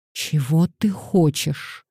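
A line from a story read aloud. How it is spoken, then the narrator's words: Furious, through clenched teeth. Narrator (Russian): Пандора почувствовала, что ее трясет от гнева, и процедила сквозь стиснутые зубы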